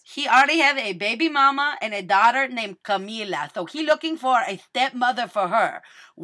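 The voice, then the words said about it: Put-on Spanish accent. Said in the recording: “He's got a Spanish accent, ... he spent his whole life in Venezuela, so he talked not quite like this, but a little something like this.”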